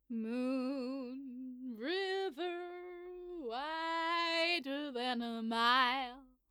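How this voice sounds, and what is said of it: Singing in an American accent. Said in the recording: “Why do I sing with an American accent?”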